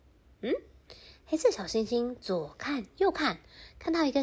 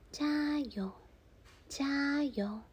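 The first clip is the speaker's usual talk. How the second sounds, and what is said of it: Tiny quiet whispering voice. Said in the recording (Chinese): “他听到一个声音，哎，小小声的”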